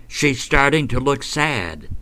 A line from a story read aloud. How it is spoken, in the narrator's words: young Eugene cried out